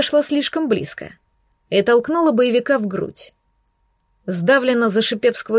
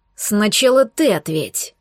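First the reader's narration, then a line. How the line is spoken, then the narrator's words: Menacing growl. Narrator (Russian): прорычал он, угрожающе нависая надо мной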